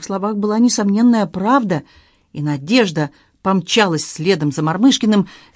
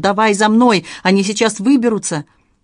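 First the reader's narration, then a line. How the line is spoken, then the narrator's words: Shouted. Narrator (Russian): выкрикнул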